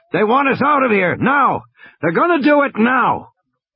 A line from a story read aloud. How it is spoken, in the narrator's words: Muldoon shouted in Grant's ear